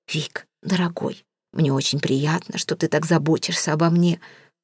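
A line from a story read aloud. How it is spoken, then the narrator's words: Sudden whisper. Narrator (Russian): вдруг шепнула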